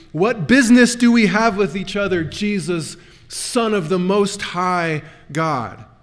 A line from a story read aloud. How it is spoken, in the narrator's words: taking over the man's voice, the legion of demons cried out loudly